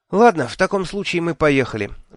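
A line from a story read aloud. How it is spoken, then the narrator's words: Sighing. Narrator (Russian): вздохнула она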